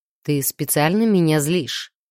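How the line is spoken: Gloomy question. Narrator (Russian): мрачно поинтересовался Андар

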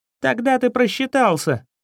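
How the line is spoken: Shrieking. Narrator (Russian): взвизгнул воришка

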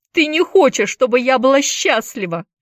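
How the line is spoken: Shout. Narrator (Russian): выкрикнула Дженни

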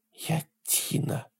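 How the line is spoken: Quiet, near whisper. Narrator (Russian): сказала девушка тихо, почти шепотом

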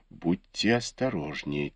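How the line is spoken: Quiet. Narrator (Russian): тихо сказала ему Фэнзе

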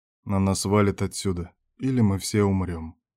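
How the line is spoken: Very quiet reply. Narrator (Russian): очень тихо ответил шеф

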